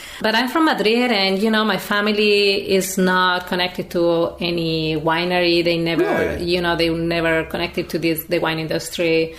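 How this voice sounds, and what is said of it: Spanish accent from Madrid. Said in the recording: “I'm from Madrid originally in Spain... That's why I have this lovely accent... I will keep this accent.”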